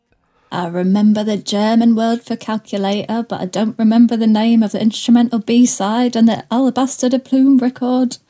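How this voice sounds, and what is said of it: Attempted Manchester accent. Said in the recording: “Was that a Manchester accent? ... I really try.”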